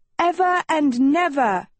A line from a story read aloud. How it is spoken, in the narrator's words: shouted one